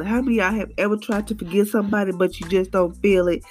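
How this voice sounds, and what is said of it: Low, unwell-sounding voice. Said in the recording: “Please excuse my voice because it's kind of low today ... I wasn't feeling too well. I was up under the weather”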